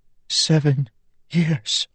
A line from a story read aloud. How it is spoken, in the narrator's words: she whispered